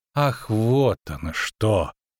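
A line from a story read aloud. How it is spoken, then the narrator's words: Drawling. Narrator (Russian): протянул Дайнти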